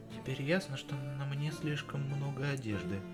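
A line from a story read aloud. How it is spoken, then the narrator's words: Whisper close to ear. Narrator (Russian): прошептала Дел, почти коснувшись губами моего уха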